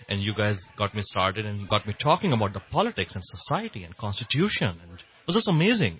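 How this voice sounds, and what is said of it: Non-native English accent. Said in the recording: “my accent in English”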